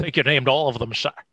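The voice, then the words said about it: Sean Connery impression. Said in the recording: “in my Sean Connery voice”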